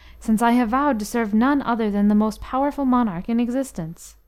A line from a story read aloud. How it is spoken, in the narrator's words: cried Offero with haste